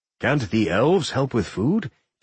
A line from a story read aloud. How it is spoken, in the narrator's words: Ken asked